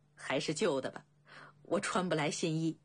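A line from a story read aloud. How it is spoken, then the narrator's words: Laughing. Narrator (Chinese): 未央笑道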